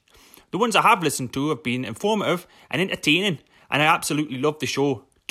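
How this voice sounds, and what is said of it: Put-on Newcastle Geordie accent. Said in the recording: “putting a Newcastle accent to you ... Jordy”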